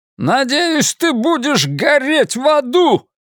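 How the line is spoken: Barked, raised voice. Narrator (Russian): рявкнул Гольдман, повысив голос

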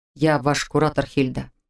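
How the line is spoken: Even-toned reminder. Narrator (Russian): напомнил он ровным тоном

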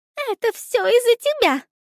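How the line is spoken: Angry exclamation. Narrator (Russian): В гневе воскликнула мышь

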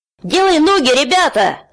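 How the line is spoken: Yell. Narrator (Russian): завопил Тай

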